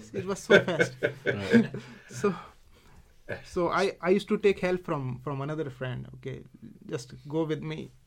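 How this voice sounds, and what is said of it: Indian accent. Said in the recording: “my typical Indian accent”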